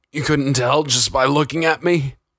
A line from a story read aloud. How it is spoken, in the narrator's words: Jonathan laughed weakly as he pulled his face out of his own vomit